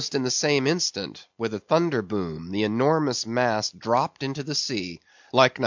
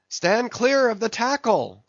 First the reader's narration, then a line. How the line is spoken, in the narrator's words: cried a voice like the bursting of a rocket